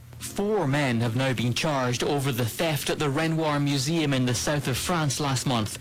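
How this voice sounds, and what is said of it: Noticeable accent. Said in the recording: “He's got a great accent.”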